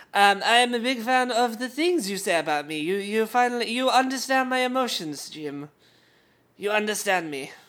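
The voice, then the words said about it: Put-on French accent. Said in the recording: “this is my French accent, by the way.”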